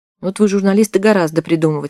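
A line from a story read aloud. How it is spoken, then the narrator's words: Amused grunt. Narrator (Russian): хмыкнул кто-то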